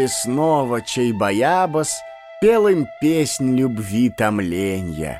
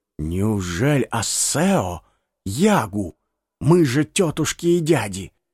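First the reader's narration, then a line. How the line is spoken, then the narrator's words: Whispering among themselves. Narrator (Russian): Очарованные гости шептались друг с другом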